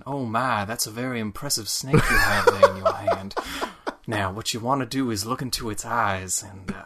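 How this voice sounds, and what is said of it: Soft Kentuckian southern accent. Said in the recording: “he's got sort of this soft southern accent that makes you feel very warm ... A very Kentuckian accent”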